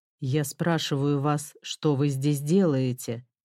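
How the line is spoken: Low heavy-voiced question. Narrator (Russian): снова низким тяжелым голосом спросил индус

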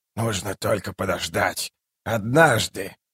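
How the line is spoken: Whisper. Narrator (Russian): прошептал провидец

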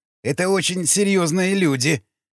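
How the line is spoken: Moaned. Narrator (Russian): простонал Гнедой

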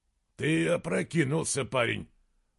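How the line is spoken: Grumbling. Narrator (Russian): проворчал из Гримнур

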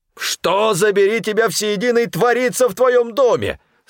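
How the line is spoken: Sudden yell. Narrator (Russian): сразу же заорал Стефан

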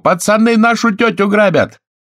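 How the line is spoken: Shout. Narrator (Russian): крикнул

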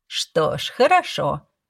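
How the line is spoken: Laughing. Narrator (Russian): подруга рассмеялась

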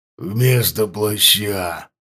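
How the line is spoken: Hoarse voice, man. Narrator (Russian): произнес он хрипло

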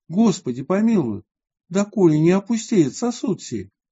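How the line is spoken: Cramped beggar exclaiming. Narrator (Russian): один из нищих воскликнул от тесноты

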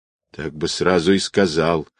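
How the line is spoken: Ingratiating mutter. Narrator (Russian): заискивающе пробормотал Влас

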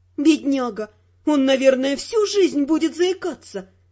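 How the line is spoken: Sighing. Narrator (Russian): вздохнула я

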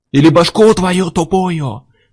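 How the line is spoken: Yelling. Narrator (Russian): заорал Миллер

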